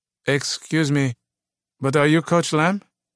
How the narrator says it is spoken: timidly asked

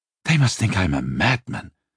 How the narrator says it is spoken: Simon groaned

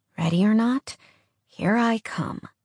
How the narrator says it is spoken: she mumbled under her breath

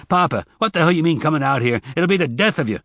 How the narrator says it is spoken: Zek said harshly

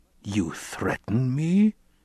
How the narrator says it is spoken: he growled

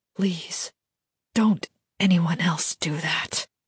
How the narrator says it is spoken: whispered

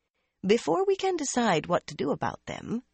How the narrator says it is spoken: Varen said calmly

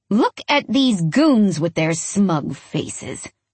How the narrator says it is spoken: she growls

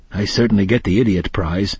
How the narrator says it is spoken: he said quietly

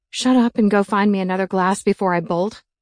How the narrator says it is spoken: chuckled

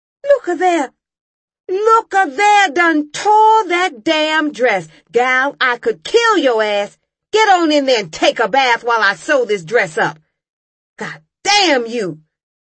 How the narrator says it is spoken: she yelled

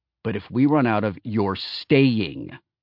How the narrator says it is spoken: I said more firmly

